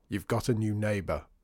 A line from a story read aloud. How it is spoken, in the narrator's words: growled